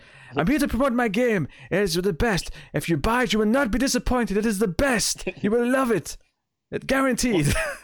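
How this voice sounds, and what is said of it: Poor imitation French accent. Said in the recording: “He's like French, which is why I'm doing kind of a shitty accent.”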